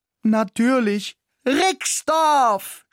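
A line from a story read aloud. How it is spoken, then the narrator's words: Excited shout. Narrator (German): schrie ich begeistert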